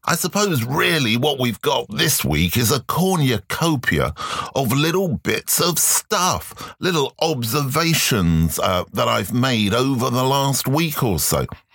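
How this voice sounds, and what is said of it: Slightly strange, unwell-sounding voice. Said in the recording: “You can probably tell that my voice is a little bit different this week as well ... the old cold, flu, COVID, who knows, seems to be attacking me ... I just may sound a little strange.”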